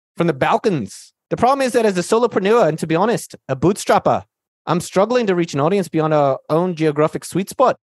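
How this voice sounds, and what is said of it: Put-on Australian accent, slightly Indian. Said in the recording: “I'll do my Australian accent then, mate ... the accent's not bad ... you could do it better ... not bad ... slightly Indian. It's a little bit of a Northern Indian thing”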